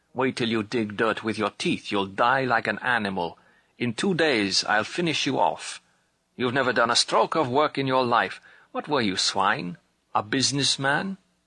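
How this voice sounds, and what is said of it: Put-on German accent. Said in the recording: “he affects his German accent”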